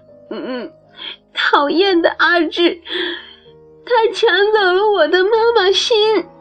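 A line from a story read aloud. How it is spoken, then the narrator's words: Child crying. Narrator (Chinese): 小苹果一边哭一边说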